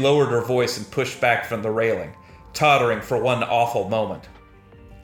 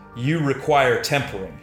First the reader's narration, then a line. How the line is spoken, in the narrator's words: she said